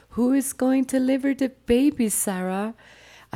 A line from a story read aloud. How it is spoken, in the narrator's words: my mother was freaking out, shouting